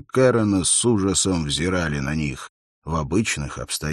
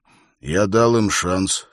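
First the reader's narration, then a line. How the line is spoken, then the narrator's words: Calm. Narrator (Russian): сказал он спокойно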